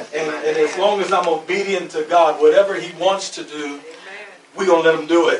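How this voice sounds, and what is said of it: Hillbilly Southern accent. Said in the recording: “I have a hillbilly accent, so you hear the hillbilly come out of me.”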